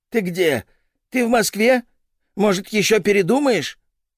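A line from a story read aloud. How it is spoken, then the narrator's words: Shrill nervous tone. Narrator (Russian): ее визгливый нервный тон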